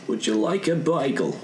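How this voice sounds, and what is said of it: Put-on Australian or Welsh accent. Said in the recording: “With an Australian accent. ... I thought that was Welsh.”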